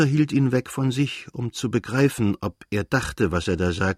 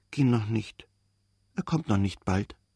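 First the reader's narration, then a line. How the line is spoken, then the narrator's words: Whispering. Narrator (German): Er flüsterte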